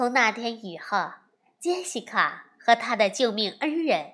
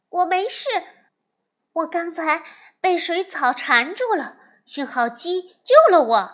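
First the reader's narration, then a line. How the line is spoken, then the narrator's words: Loud. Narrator (Chinese): 杰西卡大声地说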